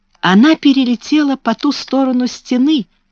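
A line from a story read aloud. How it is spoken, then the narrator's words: Exclaimed. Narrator (Russian): воскликнула Мэри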